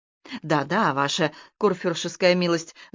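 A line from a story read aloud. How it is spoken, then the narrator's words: Stammering assurance. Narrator (Russian): заикаясь, заверил Кирхнер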